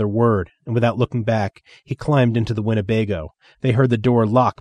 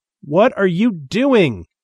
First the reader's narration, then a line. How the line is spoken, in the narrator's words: he shouted